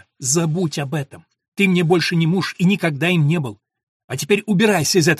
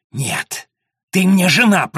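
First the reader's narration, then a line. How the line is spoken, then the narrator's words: Hissing. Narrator (Russian): прошипел он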